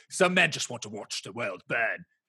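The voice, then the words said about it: Put-on British accent. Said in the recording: “That's my British accent for you.”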